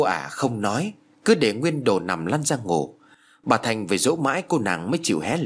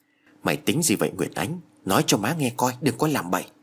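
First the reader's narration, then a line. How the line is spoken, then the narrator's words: Soft question. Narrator (Vietnamese): bà hỏi khẽ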